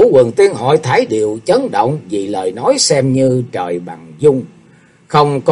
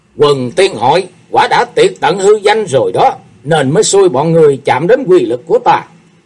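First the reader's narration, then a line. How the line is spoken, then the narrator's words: Murderous demonic roar. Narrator (Vietnamese): Sát khí dâng tràn, Thế Hùng gầm lên như quỷ độc ở trang mộ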